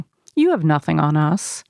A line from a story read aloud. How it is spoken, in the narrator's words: Molly objects calmly